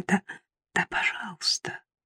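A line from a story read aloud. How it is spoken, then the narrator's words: Barely audible babble. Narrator (Russian): чуть слышно пролепетала я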